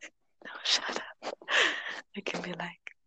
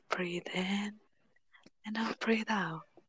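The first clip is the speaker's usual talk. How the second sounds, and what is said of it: Soft soothing ASMR-style voice. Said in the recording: “I can sound really soothing ... I have the ASMR voice ... I should be a voice actor ... Doesn't it sound nice though?”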